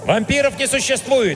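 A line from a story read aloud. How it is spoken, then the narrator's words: Barking. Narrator (Russian): рявкнул я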